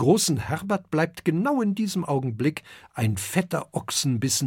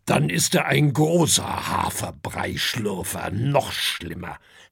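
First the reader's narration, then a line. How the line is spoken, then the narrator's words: Grumbles. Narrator (German): brummt Herbert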